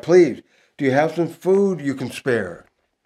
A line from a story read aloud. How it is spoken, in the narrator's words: shout